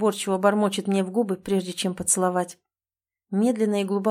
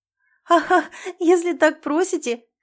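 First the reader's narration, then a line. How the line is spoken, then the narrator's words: Flirtatious laughing. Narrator (Russian): кокетничаю, смеясь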